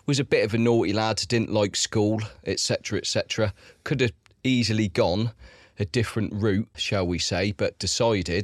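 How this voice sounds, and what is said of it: South coast English accent. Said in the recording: “as you can probably tell by my accent... I'm from the south coast of England”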